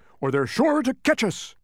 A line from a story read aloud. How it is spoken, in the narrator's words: barked Tok